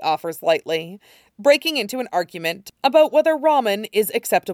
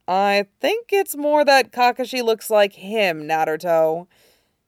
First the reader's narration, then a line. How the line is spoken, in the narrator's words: Kurama says dryly